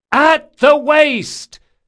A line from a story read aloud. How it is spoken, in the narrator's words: she hollered in an impossibly loud voice